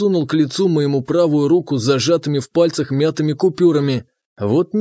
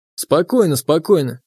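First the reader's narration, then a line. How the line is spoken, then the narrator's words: Very even tone. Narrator (Russian): проговорил я очень ровным тоном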